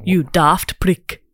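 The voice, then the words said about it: Welsh accent, Notting Hill housemate impression. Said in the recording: “I can only do the housemate from Notting Hill ... Welsh is not my strong suit ... Beautiful accent.”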